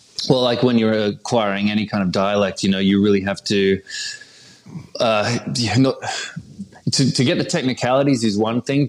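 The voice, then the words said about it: Mild neutral Australian accent. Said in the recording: “my natural accent is an Australian, a pretty neutral Australian accent. I don't have a very strong Australian accent”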